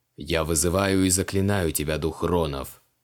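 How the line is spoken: Bored voice. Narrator (Russian): Скучающим голосом произнес Креол

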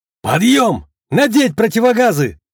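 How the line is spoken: Shouted command. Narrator (Russian): выкрикнул я

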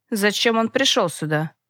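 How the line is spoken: Gloomy grumble. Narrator (Russian): мрачно проворчал генерал Осимов

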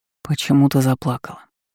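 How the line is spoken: King's whispered question. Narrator (Russian): шепотом спросил король

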